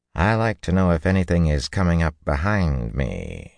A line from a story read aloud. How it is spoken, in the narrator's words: she told him dryly